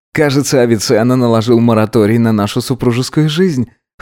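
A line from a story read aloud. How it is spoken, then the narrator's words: Wry snort. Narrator (Russian): хмыкнул Гидеон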